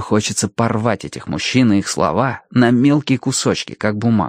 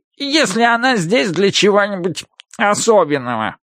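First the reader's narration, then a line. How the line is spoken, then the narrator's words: Nasal voice continuing. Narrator (Russian): продолжает гнусавый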